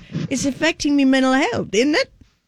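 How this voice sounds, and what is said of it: Put-on British accent. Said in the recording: “in a British accent”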